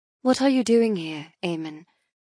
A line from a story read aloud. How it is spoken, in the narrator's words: I inquire softly